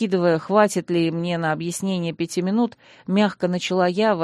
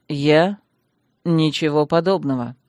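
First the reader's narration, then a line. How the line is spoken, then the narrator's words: Icy voice. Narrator (Russian): объявил он ледяным голосом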